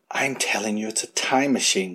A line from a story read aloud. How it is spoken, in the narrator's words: whispered Callie to Buckle